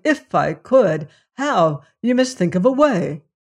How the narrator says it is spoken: cried

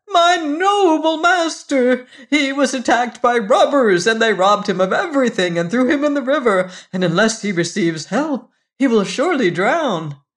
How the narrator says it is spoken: cried the cat

